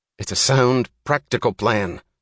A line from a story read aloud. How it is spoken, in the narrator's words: snapped James Taggart unexpectedly, with an angry edge of sudden animation in his voice